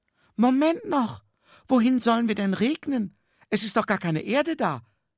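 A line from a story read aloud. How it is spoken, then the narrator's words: Small cloud calling. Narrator (German): rief die kleine Wolke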